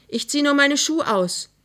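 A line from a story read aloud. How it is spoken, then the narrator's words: Called out. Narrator (German): rief Emma Mörschel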